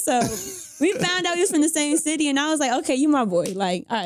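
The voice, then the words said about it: Southern Charlotte North Carolina accent. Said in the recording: “You got the accent and everything ... The Charlotte accent.”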